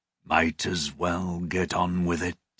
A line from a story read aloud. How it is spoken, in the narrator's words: growled softly